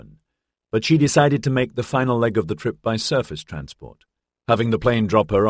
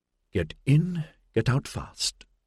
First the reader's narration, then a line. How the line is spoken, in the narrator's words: she muttered under her breath